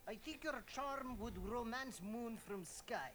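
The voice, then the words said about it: Put-on Russian accent. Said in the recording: “the Russian accent might be a nice touch”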